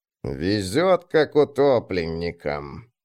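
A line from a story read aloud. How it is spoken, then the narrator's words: Grumbling. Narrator (Russian): проворчал Ланнуа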